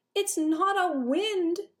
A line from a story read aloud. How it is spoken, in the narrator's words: Nim shouted